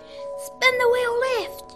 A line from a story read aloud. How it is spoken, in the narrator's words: shouted Dad